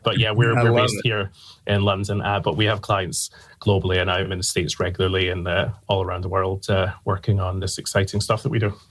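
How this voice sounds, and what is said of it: Mild Scottish Glasgow accent. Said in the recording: “I'm from Glasgow in Scotland. ... the accent is not as strong as it once was.”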